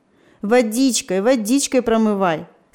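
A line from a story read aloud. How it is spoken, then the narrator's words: Laughing advice. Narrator (Russian): смеясь советовал Степа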